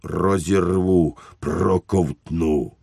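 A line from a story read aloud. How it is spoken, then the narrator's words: Growling with teeth clacking. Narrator (Ukrainian): клацав зубами і гарчав, немов говорив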